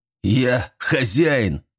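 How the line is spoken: Man's loud bark. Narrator (Russian): рявкнул мужик

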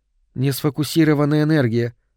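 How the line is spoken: Calm explanation. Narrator (Russian): спокойно объяснила Соланж

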